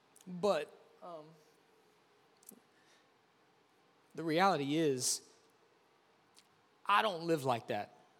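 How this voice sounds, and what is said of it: Emotional, choked-up voice. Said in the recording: “I get emotional”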